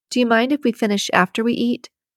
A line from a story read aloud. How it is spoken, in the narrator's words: she asked